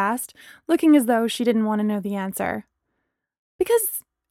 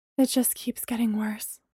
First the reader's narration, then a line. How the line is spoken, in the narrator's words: Bree breathed